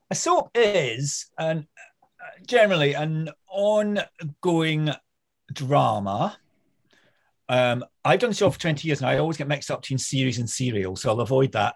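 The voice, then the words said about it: Scottish accent. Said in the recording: “another Scot ... Scottish accents”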